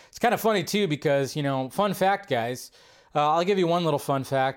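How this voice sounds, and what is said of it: Slightly scratchy, hoarse voice. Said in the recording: “my voice hasn't felt like it recovered ... Still feel like my voice is still a little scratchy”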